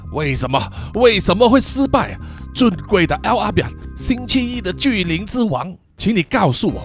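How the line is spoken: Loud shouting. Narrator (Chinese): 大声喊叫说

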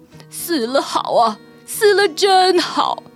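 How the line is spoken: Envious, involuntary admiration. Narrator (Chinese): 丑老……竟然流出羡慕的神情，不由自主的赞叹

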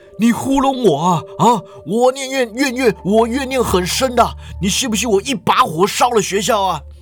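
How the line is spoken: Roaring. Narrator (Chinese): 黑影就吼道

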